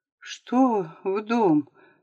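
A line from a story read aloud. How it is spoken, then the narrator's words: Weak, dazed question. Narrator (Russian): слабым голосом спросил Стасик, который, видать по всему, напрочь вырубился из суровой действительности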